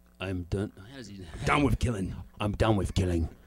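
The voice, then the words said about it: Low-pitched English action-hero voice. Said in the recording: “You weren't low enough. You didn't get that Jason Statham. ... Yeah, you could do that.”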